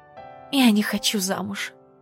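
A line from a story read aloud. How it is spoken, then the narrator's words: Whisper. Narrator (Russian): прошептала Натка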